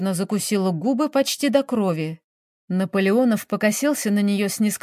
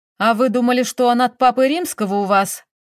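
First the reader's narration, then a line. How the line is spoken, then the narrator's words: Investigator barking loudly. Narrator (Russian): рявкнул следователь на всю палату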